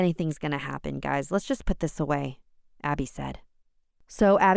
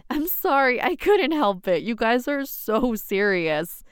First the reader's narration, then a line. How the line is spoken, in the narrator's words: laughed